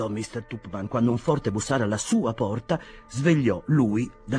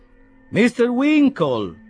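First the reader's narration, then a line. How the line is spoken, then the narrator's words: Said loudly. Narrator (Italian): disse poi a voce alta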